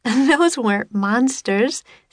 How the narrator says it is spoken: said Annie, laughing

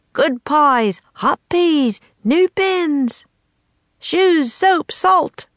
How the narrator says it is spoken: Shopkeepers shouted

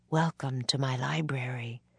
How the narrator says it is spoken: Morgan said softly

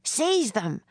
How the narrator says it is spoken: the major shouted

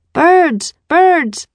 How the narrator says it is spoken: A boy shouted

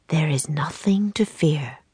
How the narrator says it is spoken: Will whispered

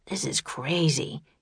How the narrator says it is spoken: muttered

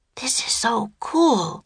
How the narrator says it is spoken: whispered

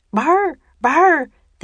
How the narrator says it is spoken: they barked

